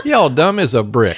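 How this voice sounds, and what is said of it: Put-on Southern accent. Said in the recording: “say it with a southern accent”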